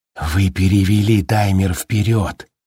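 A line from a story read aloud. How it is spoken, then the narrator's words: Plain. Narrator (Russian): сказал Хэтфилд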